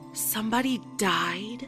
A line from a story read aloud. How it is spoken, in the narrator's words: asked in a soft voice